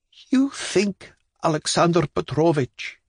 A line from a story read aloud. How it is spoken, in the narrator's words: said in a trembling voice